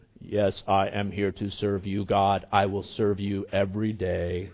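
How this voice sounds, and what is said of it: Robotic, mechanical voice. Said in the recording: “like my robot impression”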